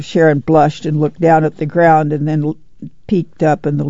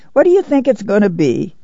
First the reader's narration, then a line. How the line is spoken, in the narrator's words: she cried, and she laughed with pleasure